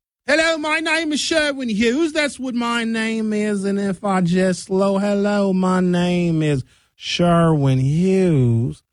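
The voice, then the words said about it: Slowed-down English accent, Southern-sounding. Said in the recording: “the Southern accent is the English accent from England, from the Great Britain area, slowed down”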